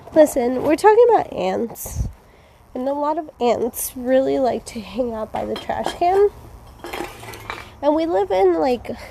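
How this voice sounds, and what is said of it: Breathless, out of breath speech. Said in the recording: “Oh my god, I'm so out of breath.”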